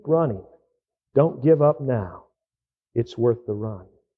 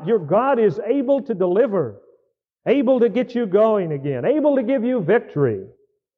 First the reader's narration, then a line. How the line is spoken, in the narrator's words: Hear him shout